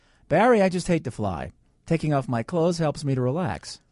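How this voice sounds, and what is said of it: American accent, slight Boston tinge. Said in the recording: “you don't sound German at all ... speak like an American with just a tinge of a Boston accent ... speak English with a natural American accent”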